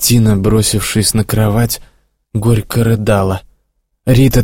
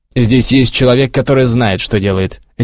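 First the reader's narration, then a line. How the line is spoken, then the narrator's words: Sharp reply. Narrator (Russian): резко ответил чиновник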